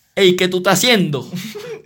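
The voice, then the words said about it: Bad Venezuelan telenovela accent. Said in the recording (Spanish): “si pudiera hablar como venezolano, lo haría para meterle en tipo acento novelesco ... horrible, es horrible, horrible”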